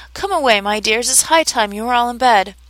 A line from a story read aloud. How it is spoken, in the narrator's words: a canary called out in a trembling voice to his children